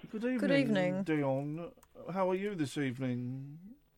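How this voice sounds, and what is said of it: Imitating the caller's voice. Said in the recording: “Why are you talking like that? ... We're doing your voice.”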